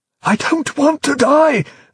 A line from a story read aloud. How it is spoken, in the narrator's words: the bishop pleaded frantically in his headphones, that rich, sermonizing voice now reduced to little more than an amphibian croak